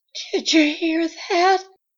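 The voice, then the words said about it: Faint, frightened voice. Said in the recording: “she asked in a faint voice.”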